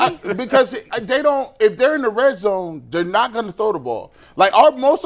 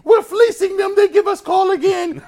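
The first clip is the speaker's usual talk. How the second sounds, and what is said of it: Impression of his wife. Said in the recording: “Your impression of your wife is my favorite impression”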